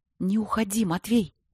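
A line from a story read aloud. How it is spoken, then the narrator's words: Loud urgent whisper. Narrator (Russian): громко зашептала Богуславская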